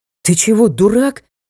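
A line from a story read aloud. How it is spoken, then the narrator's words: Breathed out. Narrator (Russian): выдохнул лорд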